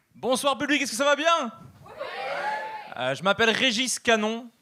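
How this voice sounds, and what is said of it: Belgian French accent. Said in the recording (French): “comme vous pouvez l'entendre à mon accent, je suis européen... je suis belge”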